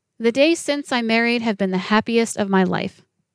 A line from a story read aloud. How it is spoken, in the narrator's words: he said